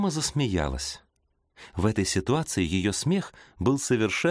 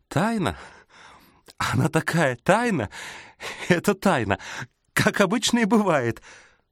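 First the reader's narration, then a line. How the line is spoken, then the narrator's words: Forced out between laughter fits. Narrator (Russian): выдавила она между приступами хохота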